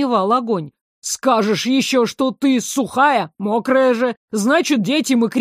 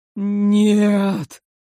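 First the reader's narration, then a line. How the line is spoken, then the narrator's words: Moaning. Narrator (Russian): простонал с трона император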